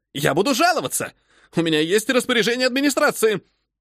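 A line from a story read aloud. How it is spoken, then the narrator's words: Shrill echoing voice. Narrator (Russian): Визгливый голос посетителя отразился от стен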